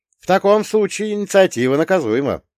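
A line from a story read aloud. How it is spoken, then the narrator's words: Wry snort. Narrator (Russian): хмыкнул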